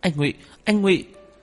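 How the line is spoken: Urgent calling out. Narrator (Vietnamese): Cô kêu lên, gấp gáp

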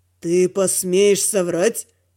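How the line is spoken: Mocking, disbelieving lizard. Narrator (Russian): Насмешливо спросил ящер, не веря в это

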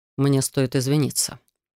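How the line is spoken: Quiet. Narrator (Russian): тихо произнес он

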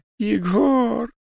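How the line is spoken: Sobbing. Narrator (Russian): Произнеся второй раз, буквально начинает рыдать

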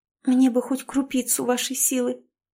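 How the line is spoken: Sobbing. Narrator (Russian): всхлипнула Волкова, продолжая бессвязно бормотать

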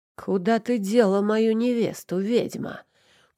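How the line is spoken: Hoarse rasp. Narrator (Russian): прохрипел я

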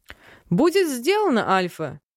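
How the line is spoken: Chuckling. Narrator (Russian): Летит смешок вслед

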